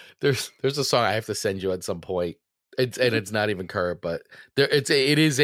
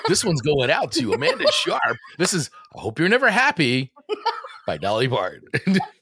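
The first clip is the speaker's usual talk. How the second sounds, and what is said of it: Radio DJ voice. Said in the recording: “you were actually like that radio DJ type of person ... you know how to do the voice and everything”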